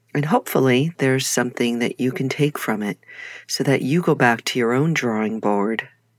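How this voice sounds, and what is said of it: New York accent. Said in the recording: “there's that New York accent coming out”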